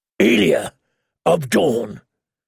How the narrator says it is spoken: Sir Gregor say, his deep voice booming within the helm

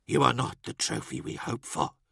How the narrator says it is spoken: Henrikos whispered

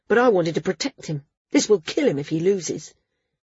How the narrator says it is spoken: snapped

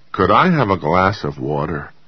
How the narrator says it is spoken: he asked Naomi thickly

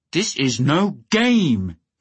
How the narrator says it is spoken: he might have roared

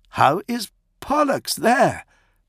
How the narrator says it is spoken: Prato exclaimed

